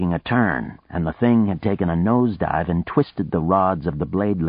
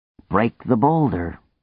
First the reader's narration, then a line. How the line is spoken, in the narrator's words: Nadia said wearily